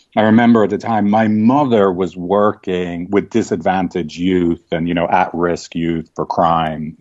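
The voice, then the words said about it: Posh Dublin Irish accent. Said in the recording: “some kind of half snobby Dublin accent,”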